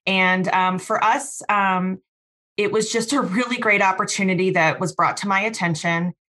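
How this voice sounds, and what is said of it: Midwestern American accent. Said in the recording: “You can tell by my accent, I've spent a lot of time in the Midwest.”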